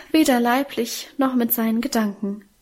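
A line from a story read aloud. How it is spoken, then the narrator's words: Emotional sigh. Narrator (German): seufzte unser Mienchen gefühlvoll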